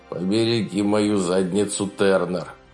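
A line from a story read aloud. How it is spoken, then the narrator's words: Grumbled. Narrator (Russian): проворчал он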